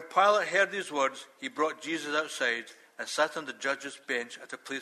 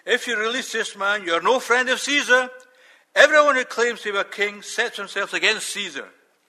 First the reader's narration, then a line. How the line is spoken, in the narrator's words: the Jews shouted